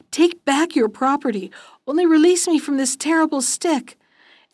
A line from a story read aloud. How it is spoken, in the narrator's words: The landlord, who felt himself at death's door already, cried out